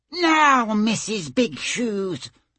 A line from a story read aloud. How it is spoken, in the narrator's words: she said in a high, squeaking voice